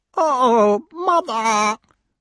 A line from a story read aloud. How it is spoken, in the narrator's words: whined the crow